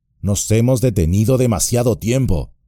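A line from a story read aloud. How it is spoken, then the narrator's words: Plain. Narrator (Spanish): dijo Merry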